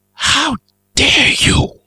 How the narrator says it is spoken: hissed in the same tongue, much more fluently

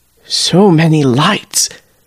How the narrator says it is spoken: the man murmurs

